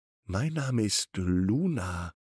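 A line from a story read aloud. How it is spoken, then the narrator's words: Plain. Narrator (German): sagt die Katze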